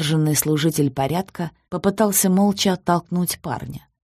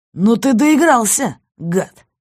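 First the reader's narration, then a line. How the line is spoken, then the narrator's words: Shouting. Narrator (Russian): закричал он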